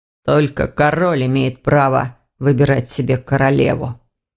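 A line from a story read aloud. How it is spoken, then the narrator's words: Muffled, sad. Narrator (Russian): глухо проговорил Ирс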